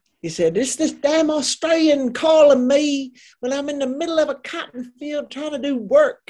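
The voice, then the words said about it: Southern North Carolina accent. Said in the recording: “you were so good at the accent ... I love that accent. The Southern North Carolina accent is the best of all of the Southern accents.”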